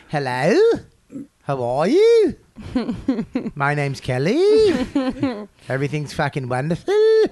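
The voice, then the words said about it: Mock Australian accent, rising inflection. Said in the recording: “The Australian accent, everything's up on the end ... Up inflection”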